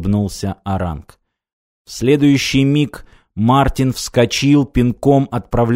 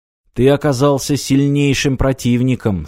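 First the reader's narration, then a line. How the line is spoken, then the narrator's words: Plain. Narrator (Russian): сказал Аранг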